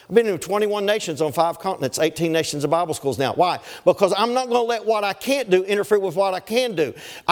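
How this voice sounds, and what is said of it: Strong Southern US accent. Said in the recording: “you don't really talk proper. You have a really strong accent. Maybe you should stay in the South ... the interpreter that understood redneck”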